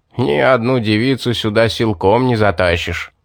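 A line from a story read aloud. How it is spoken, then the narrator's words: Smug laughing. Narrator (Russian): Рассмеялся довольный собой маг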